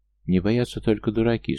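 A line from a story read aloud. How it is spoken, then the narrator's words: Calm reply. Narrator (Russian): спокойно ответил Ахтанор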